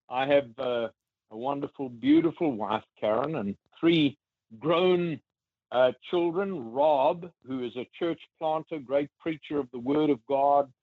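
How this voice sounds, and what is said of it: Mississippi Southern accent. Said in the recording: “I have a Mississippi accent”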